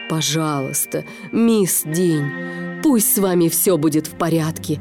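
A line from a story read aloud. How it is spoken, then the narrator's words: Pleading. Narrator (Russian): взмолился СМИ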